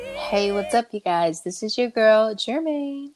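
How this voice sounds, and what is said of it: Put-on sultry, sexy voice. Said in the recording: “over here with her sexy voice. ... I tried to turn it on”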